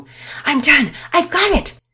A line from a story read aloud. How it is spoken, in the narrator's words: said breathlessly